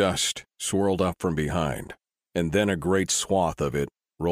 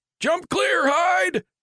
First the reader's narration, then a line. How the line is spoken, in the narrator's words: Vale yelled at his brother